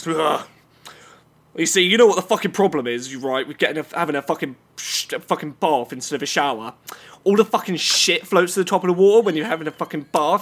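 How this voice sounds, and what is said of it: Put-on man's voice. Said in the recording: “I'm gonna try and get myself into character for this ... Getting in my man voice.”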